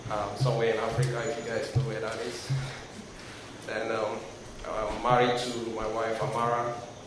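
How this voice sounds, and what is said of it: Nigerian-accented English. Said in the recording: “As you can tell, I have an accent, so I'm originally from Nigeria.”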